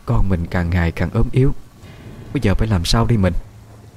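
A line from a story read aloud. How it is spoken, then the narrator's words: Tired sighing voice. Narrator (Vietnamese): Giọng mẹ đã thấm mệt, thở dài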